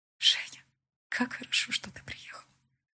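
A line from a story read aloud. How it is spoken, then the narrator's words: Blissful whisper. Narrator (Russian): блаженно шептала она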